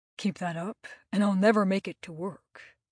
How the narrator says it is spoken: he said in a husky voice

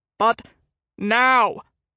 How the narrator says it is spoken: August roared

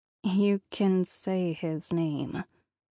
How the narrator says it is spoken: I said quietly

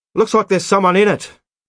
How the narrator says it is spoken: shouted

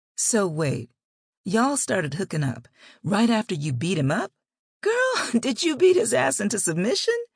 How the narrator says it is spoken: started laughing before she could get her entire statement out good

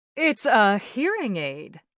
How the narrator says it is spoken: Aunt Nova boomed

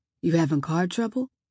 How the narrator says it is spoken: He asked in that soft, even voice

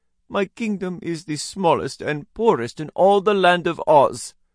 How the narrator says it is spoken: added with a sigh

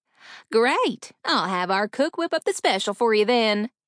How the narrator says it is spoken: Betty chirped

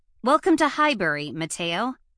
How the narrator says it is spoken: said brightly

